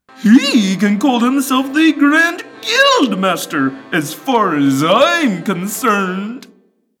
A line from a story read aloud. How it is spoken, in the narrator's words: Guide said happily